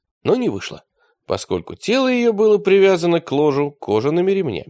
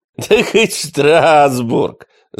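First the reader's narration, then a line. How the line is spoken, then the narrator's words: Laughing. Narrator (Russian): засмеялся великий инквизитор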